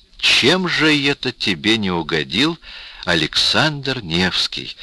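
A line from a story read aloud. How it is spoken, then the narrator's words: Plain. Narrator (Russian): спросил Глеб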